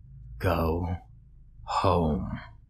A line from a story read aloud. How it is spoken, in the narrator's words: wheezed